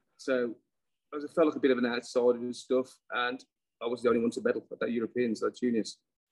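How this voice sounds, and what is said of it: Dudley Black Country accent. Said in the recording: “I'm from Dudley, near Birmingham, obviously by the accent”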